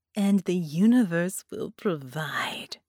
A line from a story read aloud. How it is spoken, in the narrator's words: she chuckled